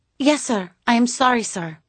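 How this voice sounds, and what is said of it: Whimpering female voice, Spanish accent. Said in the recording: “a whimpering female voice with a Spanish accent”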